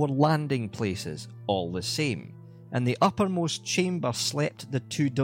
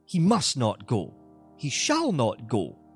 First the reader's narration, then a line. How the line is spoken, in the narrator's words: exclaimed